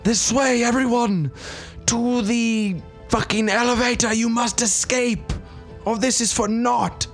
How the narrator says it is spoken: I will shout

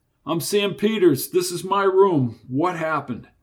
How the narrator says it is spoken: The cop yelled into the bedroom

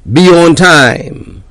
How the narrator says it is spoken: Another yelled

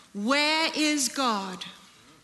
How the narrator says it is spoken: The clergyman, a huge man with a booming voice, asked him sternly

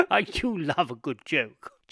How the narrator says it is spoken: chuckled Mr

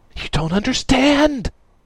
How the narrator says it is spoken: Lantis yelped at Radix

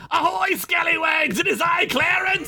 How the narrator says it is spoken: The tiny clam pirate suddenly shouted

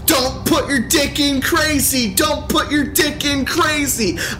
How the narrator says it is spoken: She starts screaming again

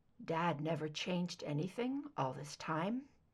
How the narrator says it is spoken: he murmured

